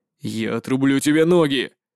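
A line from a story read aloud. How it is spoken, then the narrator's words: Furious growl. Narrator (Russian): Яростно зарычал человек в черном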